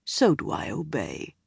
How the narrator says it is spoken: he murmured

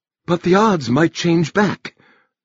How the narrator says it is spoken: Margaret Duffy, president of the council, said nervously

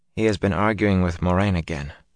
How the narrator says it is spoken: Min said quietly

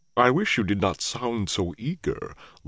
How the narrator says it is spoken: Loyal rumbled

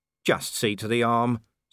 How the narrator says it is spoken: said firmly

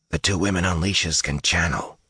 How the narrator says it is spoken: whispered

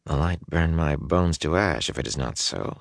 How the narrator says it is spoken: he muttered

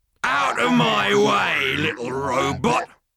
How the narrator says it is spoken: growled the tank

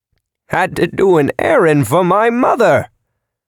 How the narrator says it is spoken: Virgil cackled, his face shining with delight

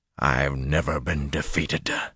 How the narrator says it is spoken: he snarled

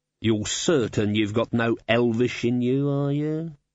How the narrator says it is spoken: said Glod

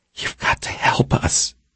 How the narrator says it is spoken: the woman whispered

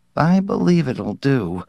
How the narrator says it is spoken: Sipling answered nervously

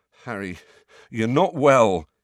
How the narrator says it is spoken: he said shakily

